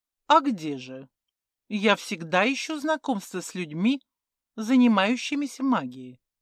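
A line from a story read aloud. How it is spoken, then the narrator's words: Calm. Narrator (Russian): спокойно продолжала Думанта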